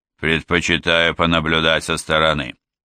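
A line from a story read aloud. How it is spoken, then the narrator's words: Dry reply. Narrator (Russian): сухо ответил Джо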